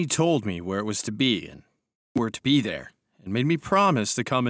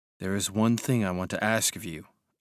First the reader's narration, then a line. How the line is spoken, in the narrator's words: I said quietly